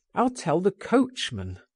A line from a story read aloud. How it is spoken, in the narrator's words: and I put my head out of the window and cried